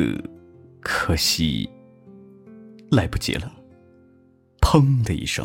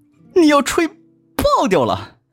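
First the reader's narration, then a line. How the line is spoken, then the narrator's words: Loud shout. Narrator (Chinese): 蓝群大叫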